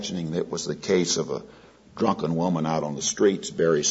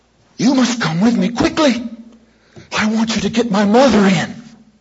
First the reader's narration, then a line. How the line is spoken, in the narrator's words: she went on anxiously